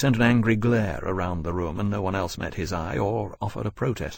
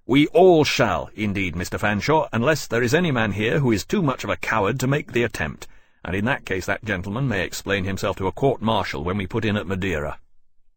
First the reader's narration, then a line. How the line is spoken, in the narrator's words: He snapped